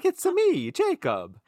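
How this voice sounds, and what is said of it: Cartoonish video-game Italian accent. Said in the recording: “I speak Italian, and I learned my Italian from Super Mario Brothers.”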